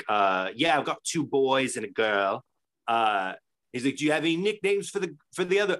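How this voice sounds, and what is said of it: Put-on British accent. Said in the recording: “I'm gonna stop doing a British accent because ... It's rough.”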